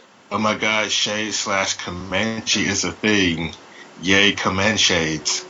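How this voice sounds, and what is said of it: Usual voice. Nothing is said of it.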